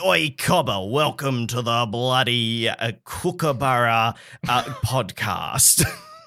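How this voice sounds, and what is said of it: Exaggerated Australian accent. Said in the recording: “we're Australian ... Sometimes our accent is a little bit wishy-washy ... We're not like”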